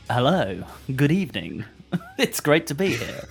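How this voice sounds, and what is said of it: Strange radio announcer voice. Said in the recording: “I don't know why I'm doing a very strange radio voice. No, that's not my voice.”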